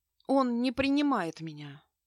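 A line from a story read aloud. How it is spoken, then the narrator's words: Heavy sigh. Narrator (Russian): тяжело вздохнула Аврора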